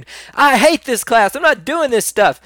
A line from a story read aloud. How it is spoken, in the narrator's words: they screamed